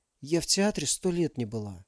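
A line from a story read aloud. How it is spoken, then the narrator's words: Dreamy whisper. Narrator (Russian): мечтательно прошептала Алиса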